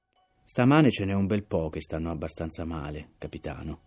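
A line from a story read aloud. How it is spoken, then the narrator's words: Calm voice. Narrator (Italian): disse con voce calma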